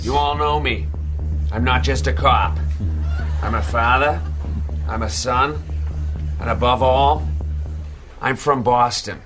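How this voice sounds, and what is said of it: Exaggerated bad Boston accent. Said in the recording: “The worst Boston accent ever ... Seth Meyers ... With some wicked bad. ... Boston accent”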